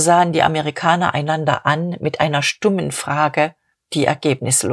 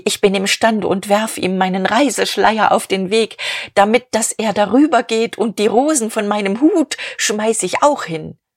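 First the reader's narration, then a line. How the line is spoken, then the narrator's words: Calling out. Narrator (German): rief sie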